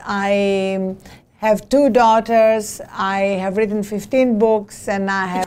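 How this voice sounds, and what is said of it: Greek accent. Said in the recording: “As you can hear from my accent, I was not born in this country. I was born in Greece.”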